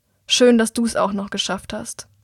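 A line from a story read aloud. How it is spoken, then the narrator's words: Unfriendly deep voice. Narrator (German): Er sagt nur wenig freundlich und mit tiefer Stimme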